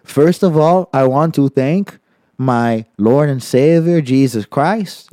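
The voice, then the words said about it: Put-on hard-to-place foreign accent. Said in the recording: “now just you're like, just doing a Brazilian on, accent ... I was doing it a little. I, I was doing like a like a Swedish person if like they had like Mexican in their lineage ... There was some sort of accent I couldn't place going on there.”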